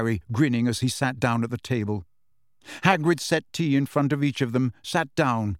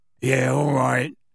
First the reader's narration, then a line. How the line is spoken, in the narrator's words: he grunted